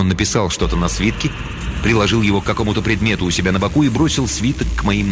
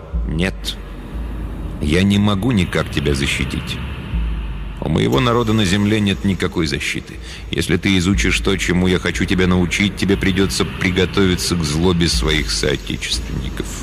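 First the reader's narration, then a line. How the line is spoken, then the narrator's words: Bitter, then cold. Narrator (Russian): горько проговорил он наконец, а потом холодно добавил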